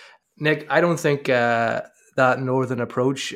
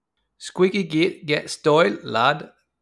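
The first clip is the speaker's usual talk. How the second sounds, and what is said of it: Put-on northern English accent. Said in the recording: “That was my worst impression ... That's my best northern accent.”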